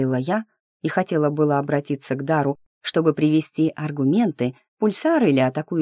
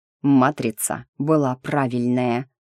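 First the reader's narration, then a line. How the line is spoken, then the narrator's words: Hissed through teeth. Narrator (Russian): процедил он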